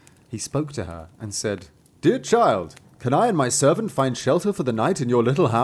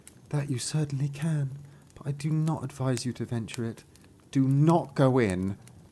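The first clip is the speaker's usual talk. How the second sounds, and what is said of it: Sad, sorrowful young woman's voice. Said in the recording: “said the girl in a sad voice.”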